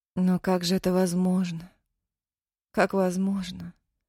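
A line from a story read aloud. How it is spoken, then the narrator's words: Slow. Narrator (Russian): Медленно выговорила Дина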